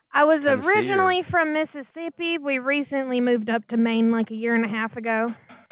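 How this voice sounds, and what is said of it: Southern American accent. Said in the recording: “you have a southern accent”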